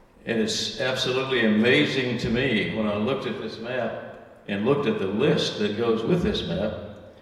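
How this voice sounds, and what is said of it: Southern American accent. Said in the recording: “you probably can tell by my accent, I didn't grow up in the North. I grew up in the South.”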